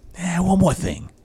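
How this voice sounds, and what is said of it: Columbo impression. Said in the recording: “I was going for Columbo ... That's not a bad impression”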